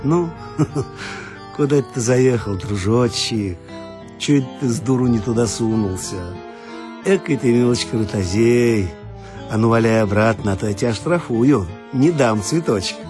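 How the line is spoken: Laughing speech. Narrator (Russian): Он, смеясь, говорит

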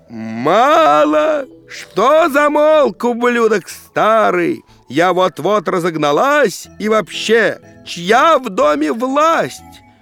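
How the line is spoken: Old woman yelling. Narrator (Russian): Бабка ж заорала

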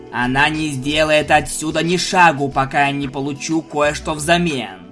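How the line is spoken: Growling. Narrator (Russian): прорычал он

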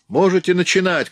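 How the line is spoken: Shouting. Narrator (Russian): крикнул я

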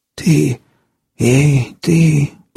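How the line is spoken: Hoarse wheeze. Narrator (Russian): прохрипел мужчина

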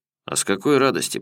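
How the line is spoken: Man grumbling. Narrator (Russian): пробурчал мужик

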